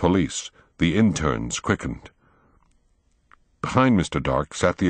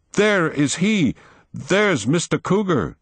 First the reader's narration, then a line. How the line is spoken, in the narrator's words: Will cried